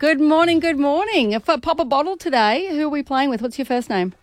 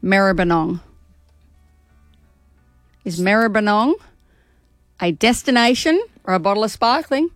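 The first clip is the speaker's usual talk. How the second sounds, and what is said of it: Put-on Australian accent. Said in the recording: “You said it like an Aussie. ... That's the accent I'm best with.”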